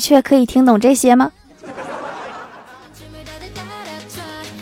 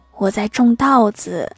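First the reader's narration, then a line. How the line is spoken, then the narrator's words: Quiet whisper. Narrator (Chinese): 乙小声的对甲说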